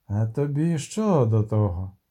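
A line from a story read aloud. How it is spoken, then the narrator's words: Hissed. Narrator (Ukrainian): прошипів чорний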